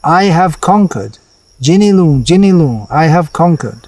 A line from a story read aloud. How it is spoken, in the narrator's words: He repeatedly exclaimed